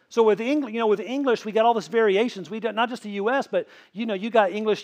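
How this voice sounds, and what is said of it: Slight Tennessee accent. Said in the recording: “you guys could probably hear a little bit of my accent ... A little bit of that Tennessee”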